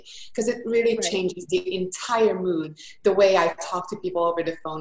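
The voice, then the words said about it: Thick Hungarian accent. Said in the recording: “I am from Budapest, Hungary. That's why the thick accent is from.”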